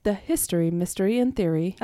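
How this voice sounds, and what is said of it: Polished newscaster-style radio voice. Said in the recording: “she had her newscaster voice ... this is my NPR voice”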